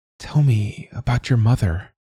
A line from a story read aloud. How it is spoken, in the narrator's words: Siobhan whispered